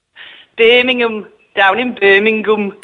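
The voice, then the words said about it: Put-on Birmingham accent. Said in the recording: “I can do a Birmingham accent if you want.”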